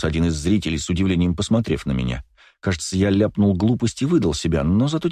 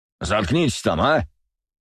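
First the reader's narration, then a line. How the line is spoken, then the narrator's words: Roaring shout. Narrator (Russian): Проревел кто-то с передних рядов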